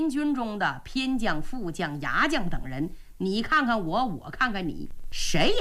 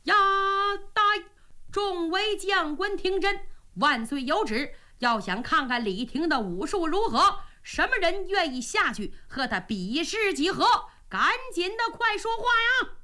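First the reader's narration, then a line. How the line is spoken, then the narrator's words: Shouting. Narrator (Chinese): 中军官赶紧来到下边高喊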